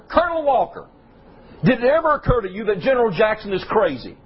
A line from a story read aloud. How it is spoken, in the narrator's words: hollered